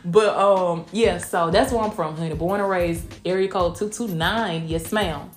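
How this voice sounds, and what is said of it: Southern country accent. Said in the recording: “I'm from Blakely, Georgia... Southwest Georgia... until they listen to how I talk and they like, oh no, that's that you got you got a country accent.”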